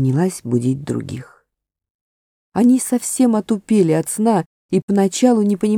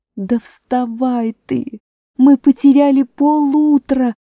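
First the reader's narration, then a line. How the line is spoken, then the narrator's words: Shout. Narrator (Russian): закричала Аравита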